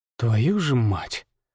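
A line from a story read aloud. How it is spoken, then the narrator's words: Exhaled. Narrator (Russian): Выдохнул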